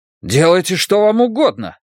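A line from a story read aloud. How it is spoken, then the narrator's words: Indignant exclamation. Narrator (Russian): негодующе воскликнул он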